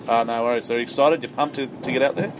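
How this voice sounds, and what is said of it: Put-on radio or teacher voice. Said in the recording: “This is not your normal voice. You have a radio voice. ... I have a teacher voice”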